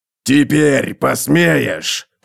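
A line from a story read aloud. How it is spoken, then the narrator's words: Gnome growling. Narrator (Russian): прорычал гном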